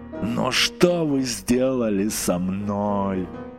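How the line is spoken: Moaning. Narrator (Russian): простонал он

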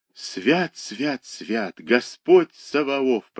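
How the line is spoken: Whisper. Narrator (Russian): прошептал Егорушка

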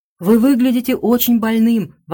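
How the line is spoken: Exclaimed. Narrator (Russian): воскликнула она

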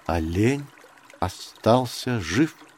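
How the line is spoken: Slow repetition. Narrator (Russian): медленно повторил Маугли

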